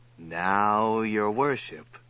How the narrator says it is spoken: said softly

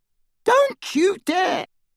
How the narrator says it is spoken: squealed Aunt Petunia

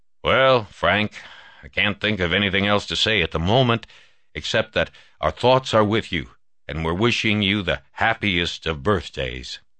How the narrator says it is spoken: said gruffly

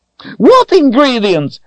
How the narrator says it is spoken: the short one yelled, red-faced

